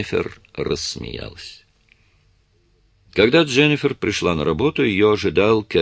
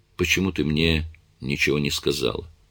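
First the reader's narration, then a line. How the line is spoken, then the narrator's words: Plain. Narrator (Russian): спросил он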